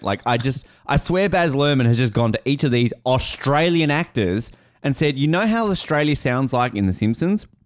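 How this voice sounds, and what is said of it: Australian accent. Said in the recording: “I'm an Australian. I have an Australian accent”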